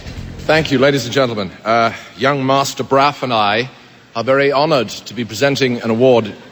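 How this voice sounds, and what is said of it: British accent. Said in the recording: “this is actually my accent ... I didn't realize we were doing British accents ... I'm British. This is the way I talk.”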